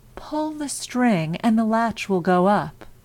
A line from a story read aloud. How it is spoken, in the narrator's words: The wolf softened his voice as much as he could and called out